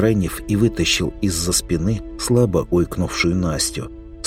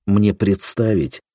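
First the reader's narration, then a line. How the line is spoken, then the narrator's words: Sigh. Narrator (Russian): вздохнул Крайнев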